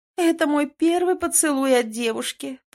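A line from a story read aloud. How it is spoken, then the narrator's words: Moaning. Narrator (Russian): простонала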